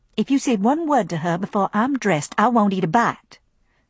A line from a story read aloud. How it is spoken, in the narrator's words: said Scarlet coolly